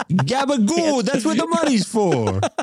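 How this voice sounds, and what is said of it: Put-on Sopranos-style New York accent. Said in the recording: “doing the "That's what the money's for" in the uh, Sopranos type accent”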